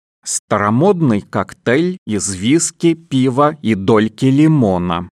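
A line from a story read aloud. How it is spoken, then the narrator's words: Plain. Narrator (Russian): сказал Гем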